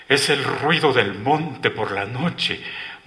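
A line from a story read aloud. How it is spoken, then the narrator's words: Astonished murmur. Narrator (Spanish): murmuró con asombro Miguel Martínez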